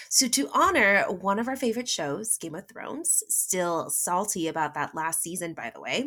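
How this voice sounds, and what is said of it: Usual voice. Nothing is said of it.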